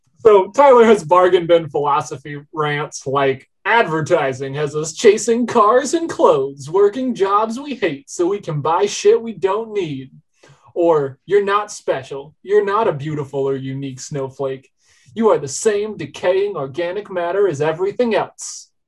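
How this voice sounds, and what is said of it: Right-wing talk radio host voice. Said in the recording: “You're really leaning into the right-wing grifter radio voice there... Rush Limbaugh meets Joe Rogan”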